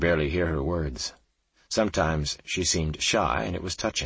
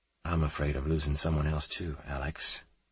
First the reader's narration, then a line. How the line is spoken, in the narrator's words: Kate said in a soft voice